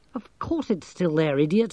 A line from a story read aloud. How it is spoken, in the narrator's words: muttered Angelo